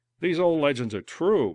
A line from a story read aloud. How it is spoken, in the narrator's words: Moran gasped